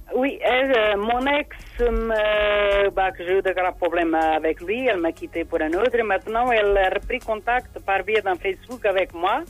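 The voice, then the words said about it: Noticeable foreign accent, hard to understand. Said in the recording (French): “Vous avez un accent, c'est un petit peu difficile. ... Oui, je sais que j'ai un accent.”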